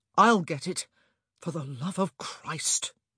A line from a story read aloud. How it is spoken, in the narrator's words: Anthony muttered